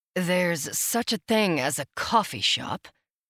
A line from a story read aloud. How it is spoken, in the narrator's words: I said dryly